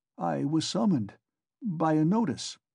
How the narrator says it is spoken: Raskolnikov faltered

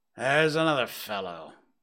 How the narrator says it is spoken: muttered Scrooge

